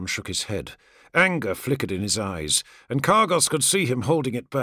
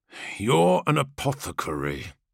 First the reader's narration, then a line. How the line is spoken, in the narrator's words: Khan spoke through gritted teeth